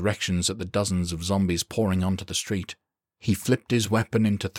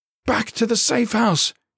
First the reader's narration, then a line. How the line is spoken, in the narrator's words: he screamed